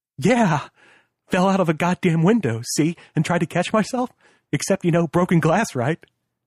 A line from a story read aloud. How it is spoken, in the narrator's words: The laugh was as high and over the edge as his voice